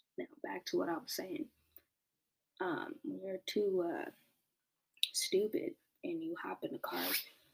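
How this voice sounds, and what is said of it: Strained, partly lost voice. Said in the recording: “I got too animated and now my voice is a little gone.”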